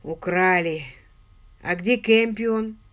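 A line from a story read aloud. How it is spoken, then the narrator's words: Moaning. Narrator (Russian): Пенни застонала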